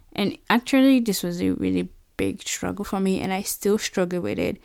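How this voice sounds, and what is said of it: Non-American foreign accent. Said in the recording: “should I keep my accent like that I came with, or should I learn the American accent?”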